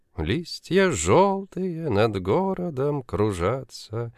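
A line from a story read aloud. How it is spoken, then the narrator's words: Sad singing. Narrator (Russian): печально напевала спутница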